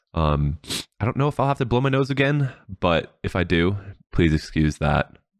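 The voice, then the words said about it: Slightly off, stuffy-sounding voice. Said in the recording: “I sound a little weird. My allergies are kicking me in the rump right now”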